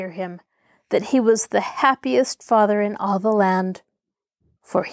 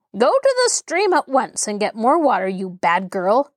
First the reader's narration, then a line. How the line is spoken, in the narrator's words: she shouted angrily